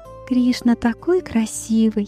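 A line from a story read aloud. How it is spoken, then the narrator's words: Admiring whisper. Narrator (Russian): Радхарани прошептала своим подругам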